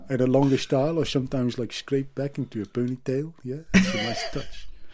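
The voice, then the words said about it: Put-on Dutch accent. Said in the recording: “I'm doing a Dutch accent now”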